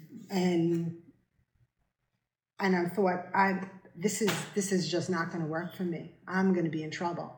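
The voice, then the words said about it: New York accent. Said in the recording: “I had just moved down to North Carolina from New York, if anybody can tell by my accent.”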